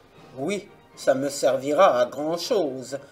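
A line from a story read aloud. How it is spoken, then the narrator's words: Grumpy reply. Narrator (French): répartit d'un ton grognon le sabot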